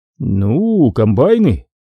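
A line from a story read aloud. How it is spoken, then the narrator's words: Drawl. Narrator (Russian): протянул один из присутствующих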